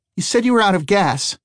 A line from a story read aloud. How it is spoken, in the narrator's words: Eli cried out